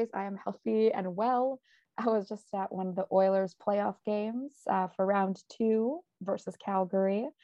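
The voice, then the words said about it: Slightly raspy voice. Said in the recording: “I do sound a little raspy today ... my voice has been donated to McDavid”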